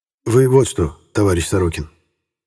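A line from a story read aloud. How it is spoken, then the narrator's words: Quiet address. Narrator (Russian): негромко обратился он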